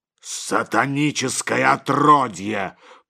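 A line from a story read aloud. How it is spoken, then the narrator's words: Growl. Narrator (Russian): прорычал иеромонах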